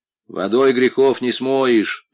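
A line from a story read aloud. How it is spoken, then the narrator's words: Boy grumbling. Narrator (Russian): проворчал мальчик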